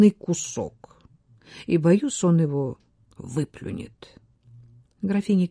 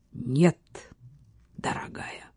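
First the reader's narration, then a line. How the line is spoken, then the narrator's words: Quiet, curt, touched. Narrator (Russian): тихо отрезал Ботвелл, тронутый, однако, ее предложением и заботой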